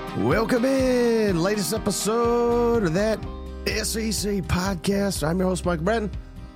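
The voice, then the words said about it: Sick-sounding voice. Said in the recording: “I don't know if you could tell it in my voice. I'm sick as hell.”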